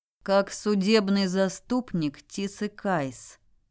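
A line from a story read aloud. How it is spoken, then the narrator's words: Even tone. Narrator (Russian): ровным тоном заявил Бестерли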